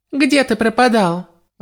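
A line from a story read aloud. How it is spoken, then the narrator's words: Irritated snap. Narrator (Russian): раздраженно бросила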